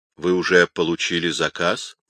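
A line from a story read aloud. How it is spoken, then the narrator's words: Dry question. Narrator (Russian): сухо спросил его Альдовранди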